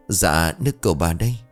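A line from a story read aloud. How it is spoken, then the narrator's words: Trembling, respectful. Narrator (Vietnamese): giọng nói run rẩy thể hiện sự kính cẩn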